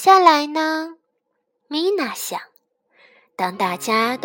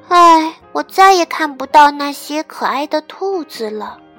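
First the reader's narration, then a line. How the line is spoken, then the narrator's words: Sighing. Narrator (Chinese): 米娜叹了口气说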